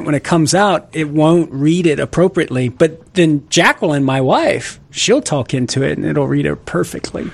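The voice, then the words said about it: Southern Louisiana accent. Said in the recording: “my accent ... Southern Louisiana ... with my accent”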